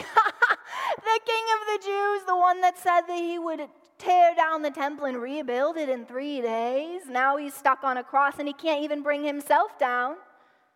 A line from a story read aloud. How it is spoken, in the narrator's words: yelling and mocking, going